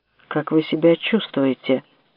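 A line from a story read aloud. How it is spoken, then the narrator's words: Plain. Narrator (Russian): спросил Виктор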